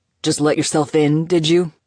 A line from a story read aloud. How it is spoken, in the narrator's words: Sato growled